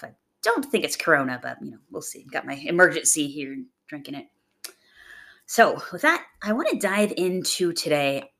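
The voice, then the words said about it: Slightly raspy voice. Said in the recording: “if I sound a little raspy ... I've got a bit of a chest cold”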